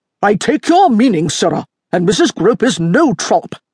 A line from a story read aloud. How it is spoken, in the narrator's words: the Marquis snapped